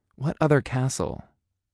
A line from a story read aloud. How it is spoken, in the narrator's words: It sighed